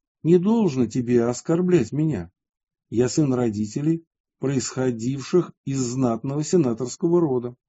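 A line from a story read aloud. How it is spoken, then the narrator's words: Calm fearless objection. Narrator (Russian): Мамонт же, нисколько не боясь гнева правителя, спокойно возразил ему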